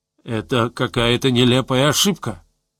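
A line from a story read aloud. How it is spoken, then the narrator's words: Muffled, hollow voice. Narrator (Russian): сообщил песец глухо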